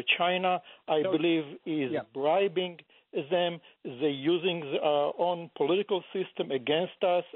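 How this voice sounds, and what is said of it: Non-native English accent. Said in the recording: “you sound like you have an accent.”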